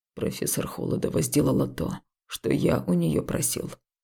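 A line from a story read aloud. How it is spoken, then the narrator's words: Cold, slightly haughty. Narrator (Russian): холодно и чуть надменно проговорил Дарт Фау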